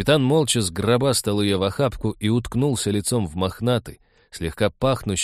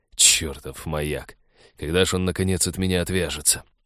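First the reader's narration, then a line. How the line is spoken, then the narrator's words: Annoyed muttering. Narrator (Russian): досадливо пробормотал капитан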